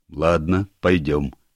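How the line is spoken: Plain. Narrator (Russian): сказал дьявол

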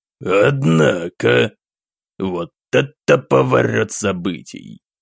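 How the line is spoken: Satisfied mutter. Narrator (Russian): Пробормотал сам Романов, и в его голосе сквозило не столько удивление, сколько своего рода удовлетворение

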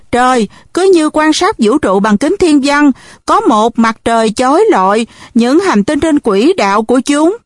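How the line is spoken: Surprised exclamation. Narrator (Vietnamese): Chan ngạc nhiên thốt lên

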